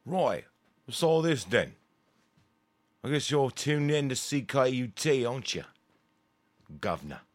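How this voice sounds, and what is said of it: Bad put-on Cockney accent. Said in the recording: “my terrible Cockney accent.”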